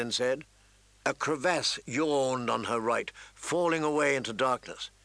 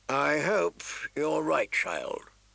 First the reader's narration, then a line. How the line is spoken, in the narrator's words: he sighed, in tones that said she was wrong